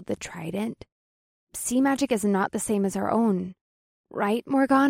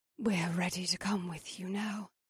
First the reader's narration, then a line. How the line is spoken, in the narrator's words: Ava whispered like it was a secret